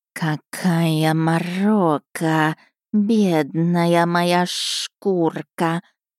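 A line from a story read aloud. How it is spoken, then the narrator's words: Snake's hiss. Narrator (Russian): раздалось шипение змею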